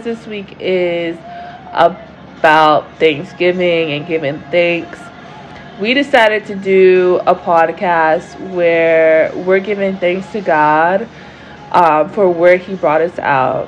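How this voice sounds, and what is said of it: Raspy, strained voice. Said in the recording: “my voice is not that great ... I have a raspy voice”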